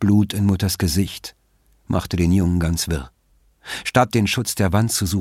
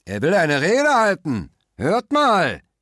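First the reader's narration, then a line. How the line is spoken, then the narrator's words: Shouted from below. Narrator (German): rief es von unten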